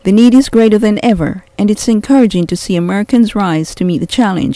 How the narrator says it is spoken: he said

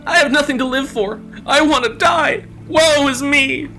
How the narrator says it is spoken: he cried out with mock sorrow

